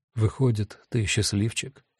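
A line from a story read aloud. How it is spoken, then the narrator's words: Gentle voice. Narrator (Russian): мягко сказал Гест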